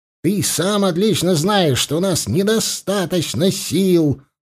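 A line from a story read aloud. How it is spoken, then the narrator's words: Yelling. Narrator (Russian): заорал в ответ Аршалай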